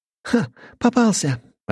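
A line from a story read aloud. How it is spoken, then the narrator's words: Joyful exclamation. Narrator (Russian): радостно воскликнула она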